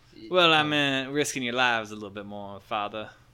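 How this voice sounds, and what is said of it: Southern drawl. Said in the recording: “Did you get more Southern? ... it's my orcish drawl.”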